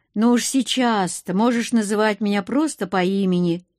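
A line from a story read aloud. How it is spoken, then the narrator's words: Snorting, wry. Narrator (Russian): хмыкнул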